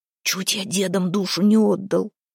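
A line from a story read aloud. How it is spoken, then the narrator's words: Muttered. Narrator (Russian): пробормотал Харапун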